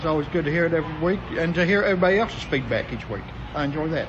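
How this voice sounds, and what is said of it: Arkansan American accent. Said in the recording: “That's an Arkansan accent.”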